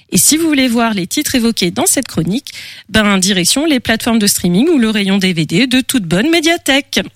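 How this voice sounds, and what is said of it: English accent speaking French. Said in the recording (French): “quel accent toujours anglais avec toi”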